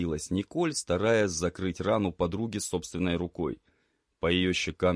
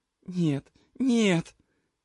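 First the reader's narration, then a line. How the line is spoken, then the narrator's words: Girl pleading, nearly sobbing. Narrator (Russian): чуть ли не рыдая, взмолилась девушка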